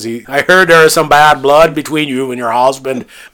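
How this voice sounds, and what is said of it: Poor put-on accent. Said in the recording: “It was a terrible attempt at a terrible accent.”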